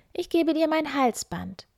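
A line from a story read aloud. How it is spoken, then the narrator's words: Calling out young woman. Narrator (German): rief die Müllers Tochter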